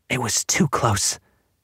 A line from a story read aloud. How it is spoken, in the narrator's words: his mother was muttering to herself